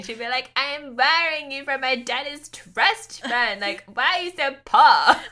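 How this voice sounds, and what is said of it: Put-on accent for a character. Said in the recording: “these accents that you, these impressions that you put on”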